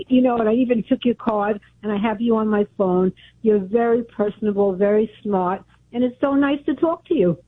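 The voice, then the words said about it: Brooklyn accent. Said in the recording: “I remember your voice. Sounds like you're from Brooklyn.”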